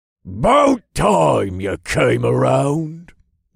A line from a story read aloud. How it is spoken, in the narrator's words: burly blacksmith growled